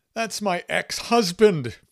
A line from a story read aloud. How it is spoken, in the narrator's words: Fan shrieked